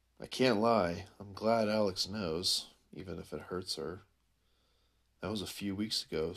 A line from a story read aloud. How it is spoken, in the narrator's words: she said